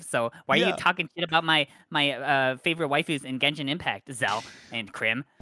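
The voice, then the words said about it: Mocking impersonation of a fan. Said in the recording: “Why do you do this impersonation so well?”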